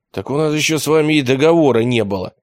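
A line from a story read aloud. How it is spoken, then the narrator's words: Confused. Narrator (Russian): растерянно сказал Лука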